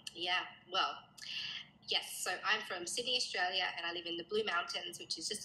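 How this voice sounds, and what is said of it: Australian accent. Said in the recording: “all the way from ... Australia ... We love your beautiful accent.”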